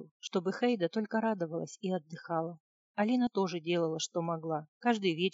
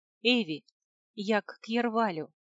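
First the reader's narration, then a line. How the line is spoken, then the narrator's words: Girl exclaiming. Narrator (Russian): воскликнула девочка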